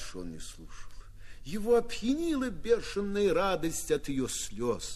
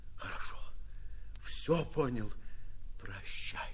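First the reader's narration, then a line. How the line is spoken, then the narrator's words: Whisper. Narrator (Russian): шепнул он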